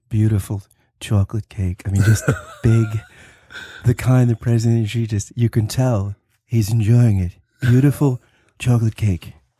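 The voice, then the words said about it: Imitates another person's voice. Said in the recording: “It's such a good impression that you do.”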